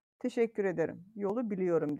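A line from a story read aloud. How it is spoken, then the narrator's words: Plain. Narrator (Turkish): dedi Leonid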